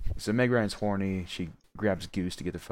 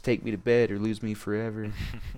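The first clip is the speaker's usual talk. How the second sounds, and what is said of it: Country accent imitating Meg Ryan. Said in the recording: “She does have a country accent. I'm not just doing that.”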